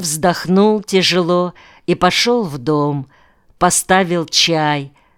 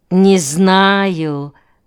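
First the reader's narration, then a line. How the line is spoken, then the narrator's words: Singsong drawl. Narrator (Russian): нараспев протянула она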